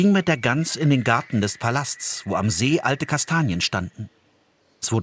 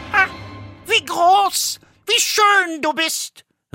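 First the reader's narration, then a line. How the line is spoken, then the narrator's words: Calling out. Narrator (German): rief sie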